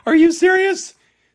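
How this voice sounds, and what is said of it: Sudden falsetto voice. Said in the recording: “All of a sudden went falsetto.”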